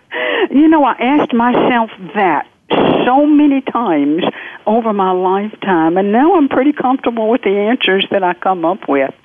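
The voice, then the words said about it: Southern American accent. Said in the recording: “I'm from the South. The accent will not change.”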